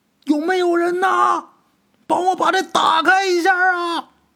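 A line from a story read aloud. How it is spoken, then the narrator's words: Muffled booming voice. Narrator (Chinese): 这声音瓮声瓮气，这声音是王有山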